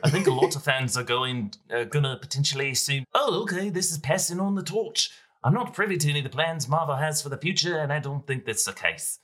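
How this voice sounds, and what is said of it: Imitates another person's voice. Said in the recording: “do my best horrible impression ... A little weak. A little thin.”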